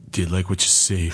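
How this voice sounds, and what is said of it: Husky, deep, mannish female voice. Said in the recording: “my Linda Fiorentino impression ... Her husky voice ... She does sound like a dude.”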